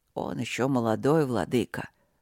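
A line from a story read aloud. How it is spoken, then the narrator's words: Growling, huge lizard. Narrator (Russian): рычаще проговорил огромный ящер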